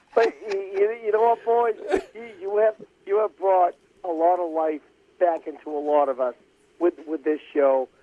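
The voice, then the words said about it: Boston accent. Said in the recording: “You're a Boston guy with a Boston accent”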